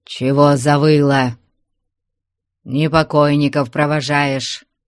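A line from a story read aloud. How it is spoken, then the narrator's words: Angry reproach, mournful undertone. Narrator (Russian): Сердито попрекнул ей Трифон, но в суровых словах его слышалось что-то плачевное, горестное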